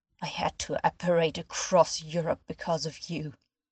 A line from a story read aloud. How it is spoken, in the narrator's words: he said in a low snarl